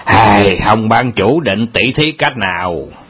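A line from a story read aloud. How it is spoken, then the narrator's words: Harsh gritted question. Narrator (Vietnamese): Âu Dương Phong gằn giọng hỏi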